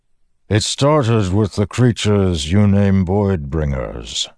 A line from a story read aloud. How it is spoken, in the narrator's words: the Stormfather said, voice rumbling and low, distant